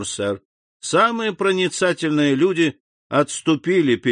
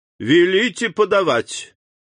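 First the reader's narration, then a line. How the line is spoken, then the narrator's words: Loud shout. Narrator (Russian): Дебре громко крикнул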